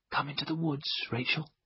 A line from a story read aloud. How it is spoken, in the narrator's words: I whispered